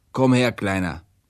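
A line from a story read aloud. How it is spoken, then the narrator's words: Prince calling out. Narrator (German): Der Fürst aber rief mir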